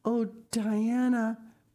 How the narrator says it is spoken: breathed Anne

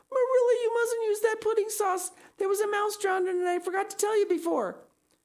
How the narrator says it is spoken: I shrieked out

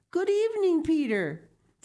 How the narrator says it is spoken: Heidi called out

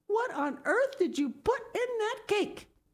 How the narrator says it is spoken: exclaimed

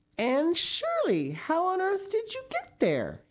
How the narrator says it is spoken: he exclaimed

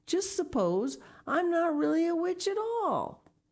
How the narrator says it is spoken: she said, looking from one to the other wildly

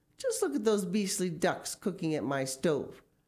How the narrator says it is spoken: cried Mrs

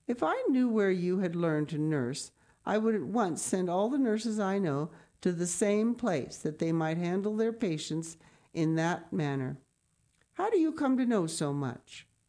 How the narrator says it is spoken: she exclaimed

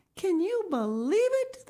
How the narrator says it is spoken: They exclaimed

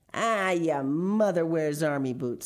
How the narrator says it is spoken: snarled the biggest boy

